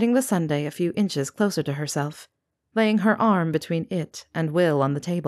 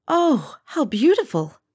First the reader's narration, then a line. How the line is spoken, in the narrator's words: exclaimed, awed by the display before her and the artistry that must have gone into it